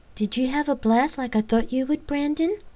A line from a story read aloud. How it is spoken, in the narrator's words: eagerly asked and smiled